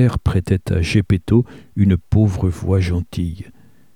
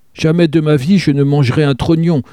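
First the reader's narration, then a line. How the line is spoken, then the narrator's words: Puppet's writhing shout. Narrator (French): cria le pantin en se tordant comme une vipère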